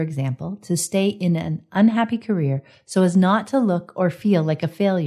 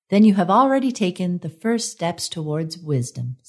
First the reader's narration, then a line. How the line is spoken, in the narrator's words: said Zephania